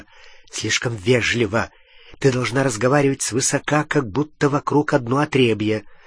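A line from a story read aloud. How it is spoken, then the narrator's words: Whispering in ear. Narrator (Russian): Гарри зашептал ей в ухо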